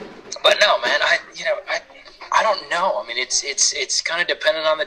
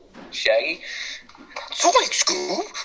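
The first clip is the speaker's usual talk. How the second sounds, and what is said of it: Imitates cartoon character Shaggy's voice. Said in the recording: “Can I hear your best Shaggy impression?”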